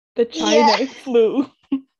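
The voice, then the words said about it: Imitates another person's voice. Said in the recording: “Can you do a good Donald Trump impression?”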